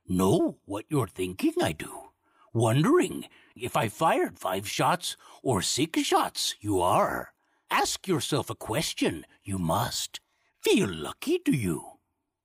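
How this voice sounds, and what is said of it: Yoda character voice. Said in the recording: “Or Yoda. ... impersonate”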